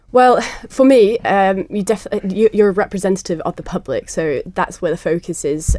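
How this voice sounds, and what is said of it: Softened non-Manx accent. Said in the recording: “I'm not, no. I don't know if you can tell by the accent. ... It's a softer accent now, getting so.”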